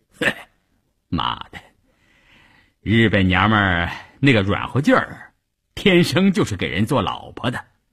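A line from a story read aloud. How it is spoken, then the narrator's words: Laughing. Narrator (Chinese): 关山林笑着对一旁的三五九旅副旅长谭之林说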